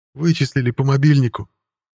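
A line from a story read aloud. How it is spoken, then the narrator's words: Tearful vampire answer. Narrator (Russian): сквозь слезы ответил вампир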